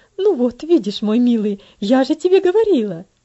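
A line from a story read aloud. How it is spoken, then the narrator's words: Triumphant mother's exclamation. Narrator (Russian): победоносно воскликнула его мать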